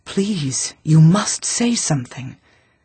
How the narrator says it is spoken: old nurse whispered

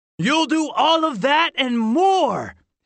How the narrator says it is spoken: his father shouted

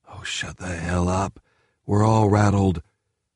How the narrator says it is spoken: a young lieutenant sighed

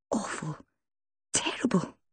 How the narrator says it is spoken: she muttered in a strangulated voice

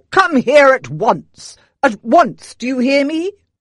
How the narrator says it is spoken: bellowed

